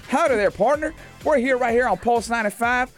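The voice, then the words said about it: Put-on American country accent. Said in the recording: “I want to do in a country accent ... my country accent is not bad ... this one is, is pretty good ... the country accent is very fun accent”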